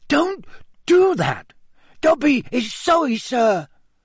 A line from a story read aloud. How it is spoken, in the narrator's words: squeaked Dobby anxiously